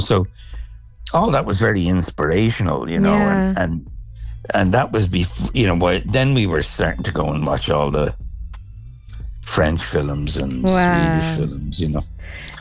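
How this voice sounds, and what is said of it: Irish accent. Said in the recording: “the Irish accent”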